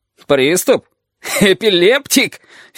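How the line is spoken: Unpleasant irritated laughter. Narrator (Russian): Филин раздражается неприятным хохотом

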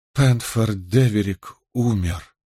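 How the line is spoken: Strained breathless gasp. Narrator (Russian): с трудом выдохнула королева бедлама

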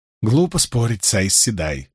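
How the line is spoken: Muttering. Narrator (Russian): пробормотала Эвиенда

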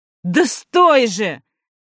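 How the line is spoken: Shouting. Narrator (Russian): кричал Сева

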